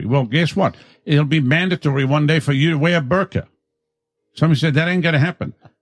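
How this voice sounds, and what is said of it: South African mixed with Southern accent. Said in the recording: “That is a strange fucking accent. ... it's like a South African plus Southern.”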